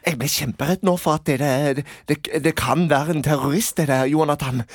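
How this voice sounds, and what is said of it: Put-on Sørlandet Norwegian dialect. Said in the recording (Norwegian): “Sørlandsdialekt.”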